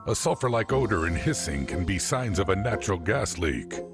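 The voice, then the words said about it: Deep narrator voice. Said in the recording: “deep voice narrator”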